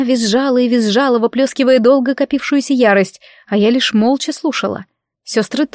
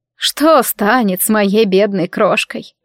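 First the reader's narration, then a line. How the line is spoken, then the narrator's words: Moan. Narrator (Russian): простонала она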